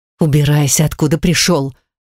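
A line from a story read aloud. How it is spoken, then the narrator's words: Surprised determined hiss. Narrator (Russian): прошипела она, сама удивляясь своей решимости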